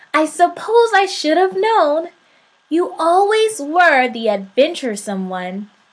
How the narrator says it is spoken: said God with a chuckle

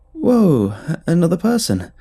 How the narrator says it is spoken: I exclaimed, hoping to sidestep the awkwardness

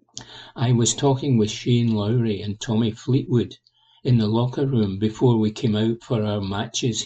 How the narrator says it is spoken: he said

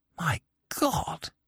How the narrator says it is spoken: I whispered

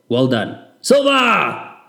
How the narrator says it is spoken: I shouted loud enough for my family in Johannesburg to hear

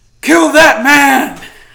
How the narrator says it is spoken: one guard shouting

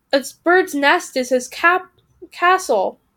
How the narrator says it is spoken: cried the second, finally getting into it

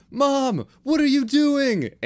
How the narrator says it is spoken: Andy shouted

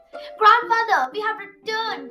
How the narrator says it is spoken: cried Millie

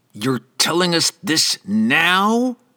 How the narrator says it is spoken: Franklin growled

